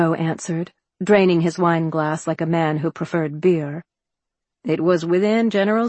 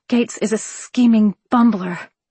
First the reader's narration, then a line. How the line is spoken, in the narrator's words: I hissed